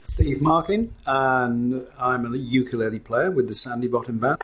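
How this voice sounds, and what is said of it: North of England accent. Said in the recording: “I detect a little accent there. ... Mine is a North of England accent.”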